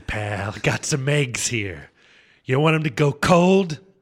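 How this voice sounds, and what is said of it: Bad Jack Nicholson impression. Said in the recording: “bad Jack Nicholson impression ... That's a terrible Jack Nicholson ... started off okay, but it It went off the rails”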